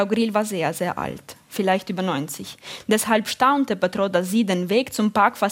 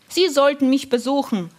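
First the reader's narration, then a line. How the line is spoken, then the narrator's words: Calling out. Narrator (German): rief noch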